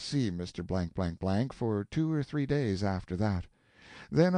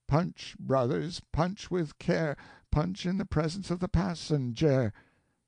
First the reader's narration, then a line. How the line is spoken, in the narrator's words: drew a deep sigh, and said, without animation, without apparent consciousness